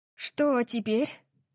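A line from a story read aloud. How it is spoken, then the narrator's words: Sigh. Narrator (Russian): вздохнула я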